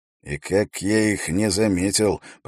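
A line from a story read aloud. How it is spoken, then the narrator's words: Mutter. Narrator (Russian): пробормотал Эрик Свенгалу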